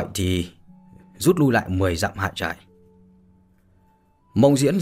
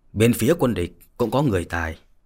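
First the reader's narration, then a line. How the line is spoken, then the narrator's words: Stern, sorrowful. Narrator (Vietnamese): Yến Trường Không thoáng lên vẻ thê lương, nghiêm giọng mà nói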